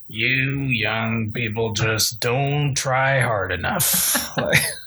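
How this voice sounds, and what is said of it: Grumpy old man voice. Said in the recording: “That was not a Denzel impression. That was an old... grump... It was an old grump... It's probably more like Jack Nicholson.”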